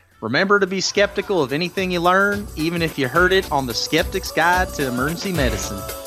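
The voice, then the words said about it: Put-on Southern drawl accent. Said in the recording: “do it in a Southern drawl accent ... You draw it out all you want.”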